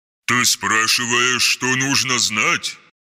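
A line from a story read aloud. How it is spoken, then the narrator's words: Irritated growl. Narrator (Russian): раздраженно прорычал дредноут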